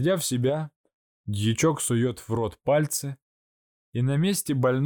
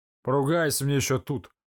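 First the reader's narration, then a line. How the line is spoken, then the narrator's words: Muttering. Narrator (Russian): Бормочет фельдшер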